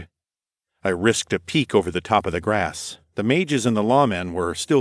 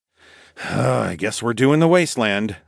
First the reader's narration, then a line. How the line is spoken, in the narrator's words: sighed